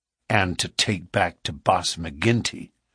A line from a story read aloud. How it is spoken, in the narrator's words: said Morris bitterly